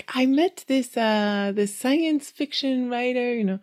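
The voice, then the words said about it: Put-on Spanish accent. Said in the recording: “He's Spanish, so I'm trying to do his accent.”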